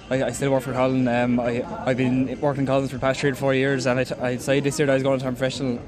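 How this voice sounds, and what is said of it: Strong Wexford Irish accent. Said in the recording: “that's definitely a strong Wexford accent ... A great Wexford accent.”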